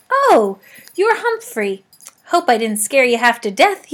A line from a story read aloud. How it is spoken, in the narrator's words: he said with a laugh